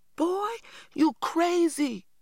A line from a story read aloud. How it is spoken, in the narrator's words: I cried